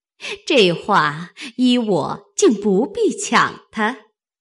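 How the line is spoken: Smiling. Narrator (Chinese): 凤姐听了这篇话，便向王夫人笑道

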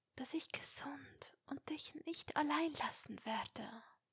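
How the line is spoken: Whisper. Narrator (German): wisperte

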